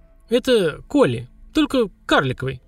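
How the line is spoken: Uncertain, tentative. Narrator (Russian): неуверенно предположил папа

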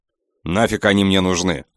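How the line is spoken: Snapped. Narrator (Russian): огрызнулся я

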